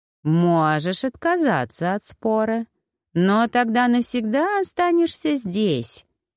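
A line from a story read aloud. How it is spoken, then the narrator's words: Purr. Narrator (Russian): мурлыкнул кот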